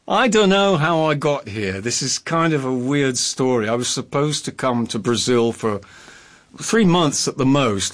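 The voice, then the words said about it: Well-spoken posh English accent. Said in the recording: “a very well-spoken, may I say, posh English accent”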